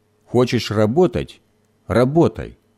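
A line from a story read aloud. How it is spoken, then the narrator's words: Angry grumbling. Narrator (Russian): сердито проворчал Гоша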